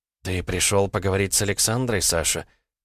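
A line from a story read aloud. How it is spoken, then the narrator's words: Quiet question. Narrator (Russian): тихо спросила Лиза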